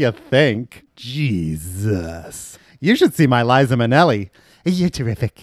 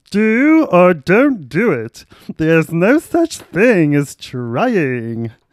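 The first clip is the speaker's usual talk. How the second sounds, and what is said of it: Yoda character voice impression. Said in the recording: “That's my Yoda impression.”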